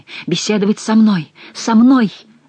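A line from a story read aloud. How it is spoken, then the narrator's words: Exclamation. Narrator (Russian): воскликнул барон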